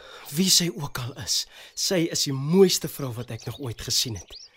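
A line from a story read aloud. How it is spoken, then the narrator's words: Breathless, gasping. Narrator (Afrikaans): Hy snak na sy asem en sê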